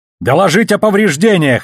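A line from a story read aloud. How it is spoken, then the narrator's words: Yelling. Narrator (Russian): заорал он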